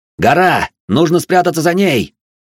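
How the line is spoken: Shouting. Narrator (Russian): закричал я, хотя в хранилище орать не требовалось

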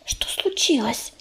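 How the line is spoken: Whispering in ear. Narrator (Russian): шепнула она на ухо белке

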